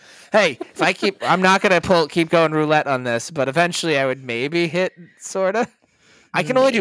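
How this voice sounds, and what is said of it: Usual voice. Nothing is said of it.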